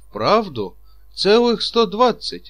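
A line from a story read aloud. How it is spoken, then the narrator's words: Amazed exclamation. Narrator (Russian): воскликнул Чичиков и даже разинул несколько рот от изумления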